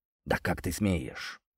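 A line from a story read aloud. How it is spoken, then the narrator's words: Voice trembling with rage. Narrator (Russian): дрожащим от ярости голосом выдавил Сергей Иванович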